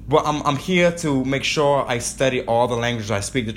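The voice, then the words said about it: Strong accent, fast speech. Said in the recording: “I talk very fast ... I have an accent ... I talk fast, plus my accent, and I stutter a lot ... in every language I speak, I have a strong accent”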